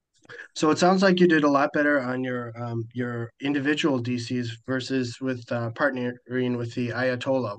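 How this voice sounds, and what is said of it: Slightly hoarse voice. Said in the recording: “my voice is a little off tonight ... we had a little bit of a shouting match, so I'm a little hoarse.”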